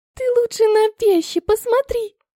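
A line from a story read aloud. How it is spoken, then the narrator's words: Squeak. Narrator (Russian): пискнула Ванилька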